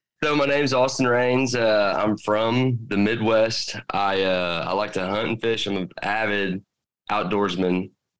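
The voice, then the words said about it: Strong regional American accent. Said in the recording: “You got a great accent. ... I know you're from the South.”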